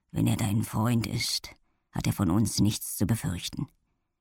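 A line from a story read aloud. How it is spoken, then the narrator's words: Quiet. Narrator (German): sagte er leise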